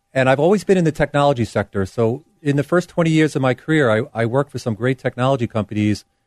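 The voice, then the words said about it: New York accent. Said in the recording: “started my career in New York. ... I can tell. ... the accent's not going to go away”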